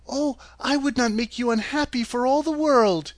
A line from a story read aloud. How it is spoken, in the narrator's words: exclaimed Dorothy